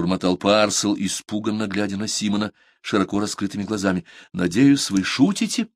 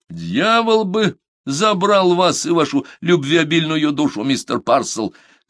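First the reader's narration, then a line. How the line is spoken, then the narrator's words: Yelled. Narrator (Russian): заорал Симон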